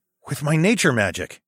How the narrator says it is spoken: said with a sudden gasp

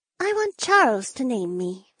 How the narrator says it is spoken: the small bunny girl breathed

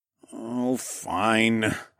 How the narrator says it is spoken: I groaned

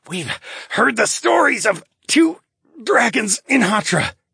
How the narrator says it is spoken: he rasped

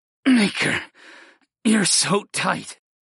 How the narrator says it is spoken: I grunted

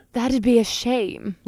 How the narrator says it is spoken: Libidine sighed

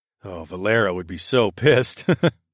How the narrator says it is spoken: I chuckled

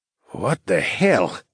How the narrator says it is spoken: Gregorio mumbled

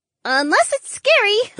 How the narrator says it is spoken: the feline woman piped up

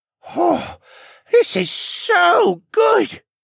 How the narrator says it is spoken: Rylan gasped

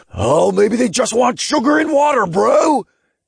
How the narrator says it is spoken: Todd shrieked as he dove out of the way of an incoming bug

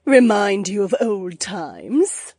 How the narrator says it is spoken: Edeny chuckled over her shoulder

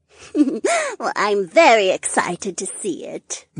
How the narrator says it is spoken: the heiress giggled

